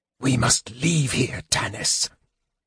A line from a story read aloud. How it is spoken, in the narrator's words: Raistlin hissed from out of the shadows of the temple